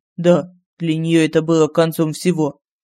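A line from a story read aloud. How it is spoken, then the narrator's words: Flat, colorless confession. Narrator (Russian): признался Лорин бесцветным тоном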